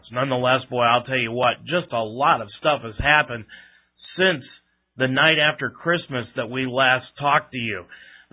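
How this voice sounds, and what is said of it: Voice affected by a sore throat. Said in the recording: “Please forgive my voice, but the polar vortex that has been running through this part of the country has attacked my throat”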